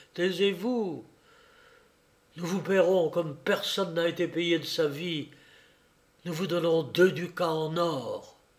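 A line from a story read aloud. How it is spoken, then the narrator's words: Exclaiming. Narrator (French): s'écria Yankel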